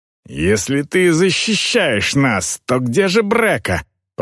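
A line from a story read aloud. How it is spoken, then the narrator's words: Growling orc woman. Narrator (Russian): прорычала орка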